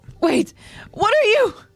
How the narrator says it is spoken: she cries out

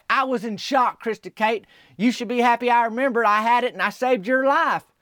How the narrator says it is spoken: And Tabby Jean yelled back

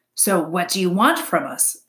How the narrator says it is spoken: growled Fink

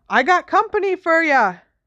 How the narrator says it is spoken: shouted

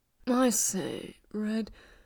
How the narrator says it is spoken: he murmured

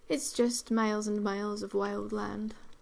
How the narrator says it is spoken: replied Mrs

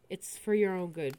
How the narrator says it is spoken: Bradley sighs

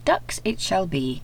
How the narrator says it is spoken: said Mr

